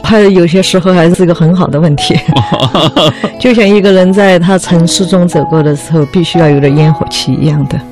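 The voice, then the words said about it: Mandarin with Sichuan accent. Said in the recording (Chinese): “西瓦老师四川人，所以他说我的这个普通话其实也是夹杂着四川话的普通话 ... 有点口音”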